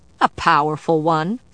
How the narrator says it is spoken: Vivian said with a snort

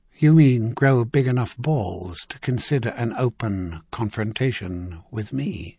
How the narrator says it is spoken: Clintan asked calmly

